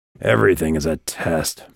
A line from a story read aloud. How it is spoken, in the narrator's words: Vikas muttered